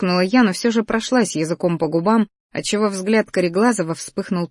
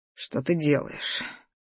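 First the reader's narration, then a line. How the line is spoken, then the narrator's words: Slightly husky voice. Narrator (Russian): Его голос с легкой хрипотцой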